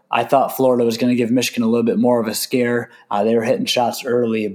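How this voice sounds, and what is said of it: Hoarse, choppy voice. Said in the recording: “my voice is a little bit choppy ... my hoarse voice from my weekend sickness”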